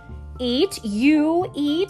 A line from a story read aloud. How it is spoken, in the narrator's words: bellowed the troll